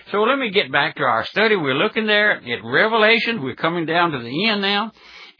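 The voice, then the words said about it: Speaker's own strong regional accent. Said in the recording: “butchering up the King's English ... a person with an accent like the Old Trailblazer had”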